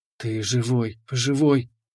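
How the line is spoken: Trembling whisper. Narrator (Russian): шептала она, и я чувствовал, как она дрожит всем телом

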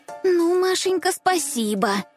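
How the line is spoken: Indignant hiss. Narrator (Russian): возмущенно зашипела Аленка

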